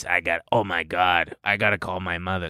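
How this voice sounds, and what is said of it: Imitated deep male voice. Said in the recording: “The guy with the deep voice.”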